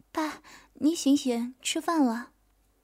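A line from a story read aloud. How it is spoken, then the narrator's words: Soft gentle voice. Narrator (Chinese): 一声轻声细语的话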